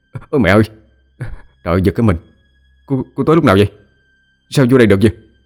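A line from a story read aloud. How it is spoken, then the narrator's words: Startled shout. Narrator (Vietnamese): hét lên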